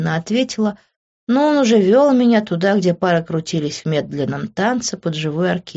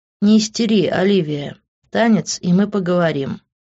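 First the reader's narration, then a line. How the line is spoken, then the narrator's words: Dry. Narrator (Russian): сухо сказал он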